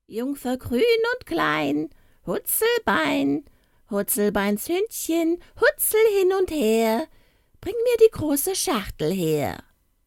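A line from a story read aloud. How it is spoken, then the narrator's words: Calling out. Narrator (German): rief sie eine Junge und sprach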